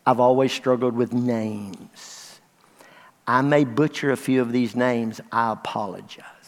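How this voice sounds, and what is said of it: Western Kentucky accent. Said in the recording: “y'all know I'm from Western Kentucky. You know I have an accent.”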